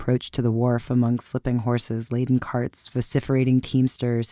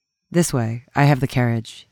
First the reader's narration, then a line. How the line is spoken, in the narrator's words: he said